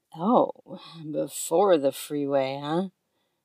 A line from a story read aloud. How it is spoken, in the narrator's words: He chuckles